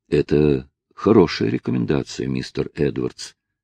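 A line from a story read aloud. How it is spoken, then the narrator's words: Judge speaking gently. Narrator (Russian): мягко проговорил судья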